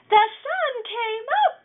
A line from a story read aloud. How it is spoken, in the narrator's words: he chirped